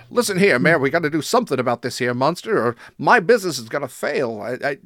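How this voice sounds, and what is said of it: Put-on transatlantic accent. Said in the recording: “you use the transatlantic accent when they probably at that time would not have, because that was a fake accent”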